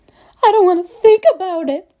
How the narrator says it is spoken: shrieked Mrs

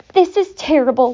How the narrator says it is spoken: wailed Mrs

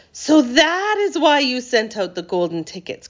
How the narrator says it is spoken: cried Charlie

